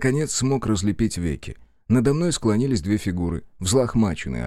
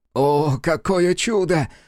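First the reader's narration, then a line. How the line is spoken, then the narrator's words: Exclaiming. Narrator (Russian): воскликнул итальянец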